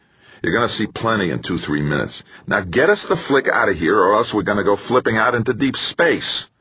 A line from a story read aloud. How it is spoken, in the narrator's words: Aloud, he snapped